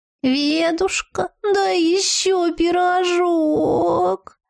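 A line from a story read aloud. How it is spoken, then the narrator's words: Fox moaning from floor. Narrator (Russian): Стонала откуда-то с пола совершенно сферическая лисица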